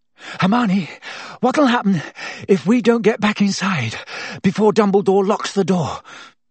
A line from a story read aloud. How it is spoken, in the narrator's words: Harry panted